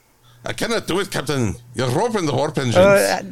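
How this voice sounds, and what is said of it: Attempted Scottish accent, sounding Russian. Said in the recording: “Scottish accent ... That's more Russian.”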